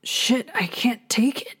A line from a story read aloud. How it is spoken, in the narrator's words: Jude groaned beside him